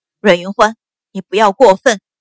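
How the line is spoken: Through gritted teeth. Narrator (Chinese): 秦氏咬牙道

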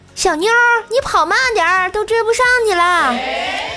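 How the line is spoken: Young man shouting. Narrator (Chinese): 身后一个男生大喊

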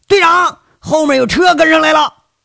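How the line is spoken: Shout. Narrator (Chinese): 中路有人喊

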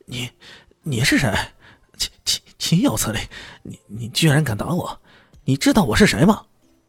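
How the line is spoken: Roaring. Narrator (Chinese): 赵明聪咆哮起来

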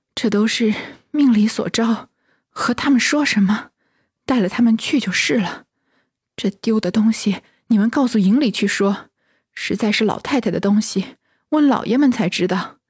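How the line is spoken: Breathless. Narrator (Chinese): 凤姐喘吁吁的说道

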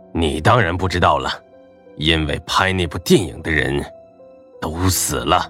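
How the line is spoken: Low voice. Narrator (Chinese): 林东贤 低声说道

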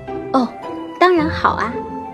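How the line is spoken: Smiling reply. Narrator (Chinese): 贝琳达微笑着回答

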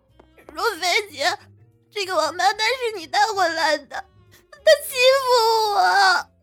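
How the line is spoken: Tearful, aggrieved. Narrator (Chinese): 花韵霞哭泣委屈说道

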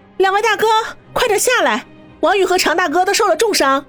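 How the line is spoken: Shouting up to rooftop. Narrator (Chinese): 对屋顶的光头二人组喊道

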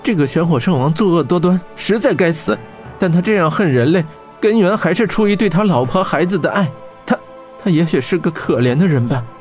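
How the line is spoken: Sighing. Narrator (Chinese): 玄火圣王窥叹道

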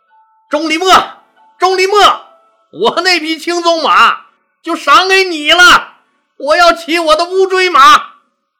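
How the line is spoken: Excited shout. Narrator (Chinese): 项羽是太喜欢这匹通灵性的乌骓马了， 当时大叫

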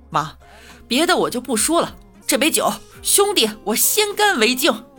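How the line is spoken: Loud, repeated. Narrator (Chinese): 新郎第二遍又大声的来了一句

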